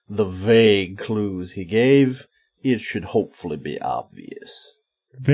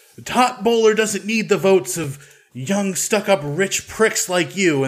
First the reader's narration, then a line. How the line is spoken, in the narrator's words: one of them yells